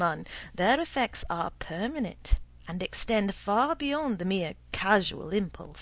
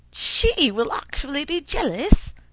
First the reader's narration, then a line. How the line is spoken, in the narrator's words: cried Allan in a rapture